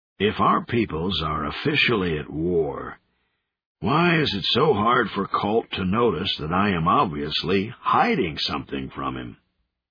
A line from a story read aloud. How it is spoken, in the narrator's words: The big Thenanin grunted